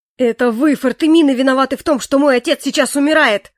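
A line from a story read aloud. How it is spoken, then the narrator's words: Furious spluttering yell. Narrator (Russian): Орал он, разве что не брыжа слюной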